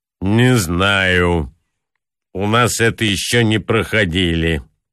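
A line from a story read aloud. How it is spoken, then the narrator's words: Gloomy reply. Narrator (Russian): ответил мрачно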